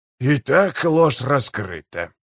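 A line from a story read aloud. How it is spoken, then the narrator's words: Muttered. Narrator (Russian): пробормотал он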